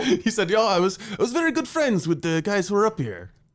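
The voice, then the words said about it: Put-on foreign accent, maybe Italian. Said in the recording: “I don't think the accent's necessary. ... where is that guy from with that accent exactly? ... Italy, Greece, maybe.”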